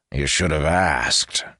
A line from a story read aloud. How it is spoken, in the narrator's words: growled Tayrus